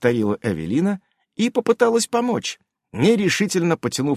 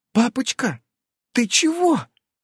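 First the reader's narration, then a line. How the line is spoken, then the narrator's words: Frightened question. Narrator (Russian): испуганно спросила Эвелина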